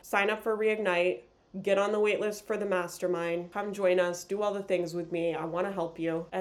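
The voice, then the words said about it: Rough, hoarse voice. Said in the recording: “I'm sorry if my voice was rough. I'm still recovering from COVID.”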